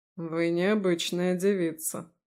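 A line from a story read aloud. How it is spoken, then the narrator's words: Snorting remark. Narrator (Russian): хмыкнул Алаздер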